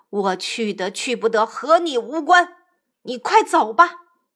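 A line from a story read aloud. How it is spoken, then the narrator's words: Angry. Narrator (Chinese): 三藏怒道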